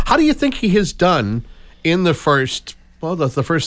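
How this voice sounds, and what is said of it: Usual voice. Nothing is said of it.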